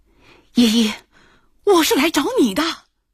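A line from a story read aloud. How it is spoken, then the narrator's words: Desperate drowning plea. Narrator (Chinese): 幽灵男的声音有些绝望，好像溺水的人发出的求救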